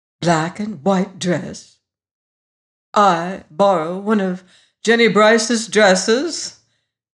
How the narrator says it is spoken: exclaimed Miss Hope

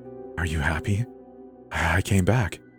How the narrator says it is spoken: whispered

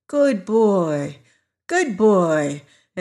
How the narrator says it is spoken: in a coaxing tone

